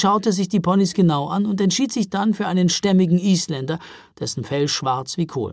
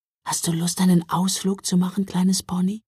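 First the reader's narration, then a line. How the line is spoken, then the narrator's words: Whispered. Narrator (German): flüsterte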